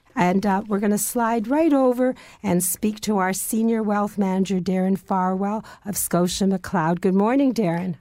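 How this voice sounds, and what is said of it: Hoarse, strained voice. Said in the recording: “I lost my voice”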